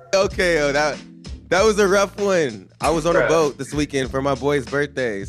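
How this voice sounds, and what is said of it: Hoarse, mostly lost voice. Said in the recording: “my voice is kind of gone”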